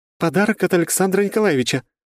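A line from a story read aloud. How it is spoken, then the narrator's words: Joyful mother. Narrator (Russian): радостно сказала мать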